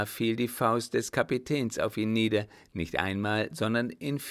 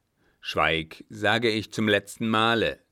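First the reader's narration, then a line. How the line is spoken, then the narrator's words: Old man thundering. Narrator (German): donnerte der Alte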